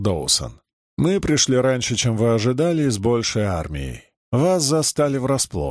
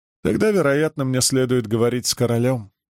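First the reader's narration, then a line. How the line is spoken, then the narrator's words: Chuckling. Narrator (Russian): за спиной хохотнул Фаллан Брод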